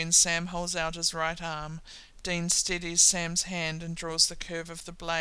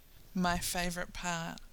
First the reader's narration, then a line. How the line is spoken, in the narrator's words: Sam murmurs